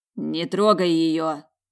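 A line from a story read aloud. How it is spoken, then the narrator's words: Growling from aside. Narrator (Russian): прорычали сбоку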